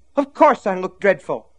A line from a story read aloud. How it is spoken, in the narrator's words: snapped